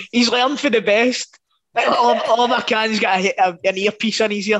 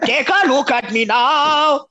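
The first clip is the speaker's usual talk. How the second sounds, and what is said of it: Stereotypical German villain voice singing. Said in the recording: “That was my Toni Kroos impression. ... He's a stereotypical Bond villain German.”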